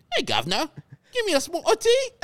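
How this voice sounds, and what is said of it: Put-on Cockney English accent. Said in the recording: “my English accent ... Give us Cockney ... It's usually Cockney”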